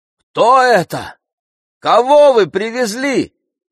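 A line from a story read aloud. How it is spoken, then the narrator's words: Shouted after someone. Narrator (Russian): крикнул вдогонку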